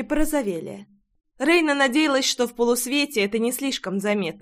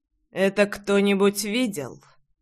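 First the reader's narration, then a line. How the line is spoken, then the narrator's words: Low voice, stepfather clarifying. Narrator (Russian): Низким голосом уточнил отчим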